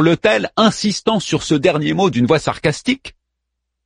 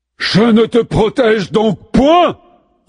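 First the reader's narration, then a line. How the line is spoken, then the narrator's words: Towering roar. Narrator (French): rugit Athénée qui ressemble à une statue de 4 mètres de haut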